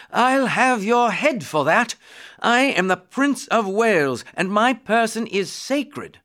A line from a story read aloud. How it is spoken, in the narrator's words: Edward shouted